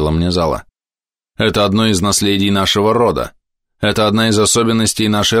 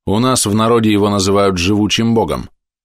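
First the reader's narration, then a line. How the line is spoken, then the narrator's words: Plain, demoness. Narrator (Russian): сказала демоница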